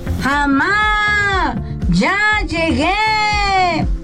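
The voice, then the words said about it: Shouting loudly. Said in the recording (Spanish): “¿por qué gritas tanto?”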